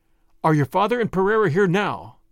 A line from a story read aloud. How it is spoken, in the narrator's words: I asked